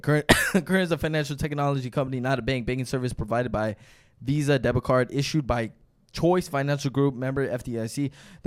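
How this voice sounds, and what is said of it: Very fast reading. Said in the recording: “I gotta read this fast”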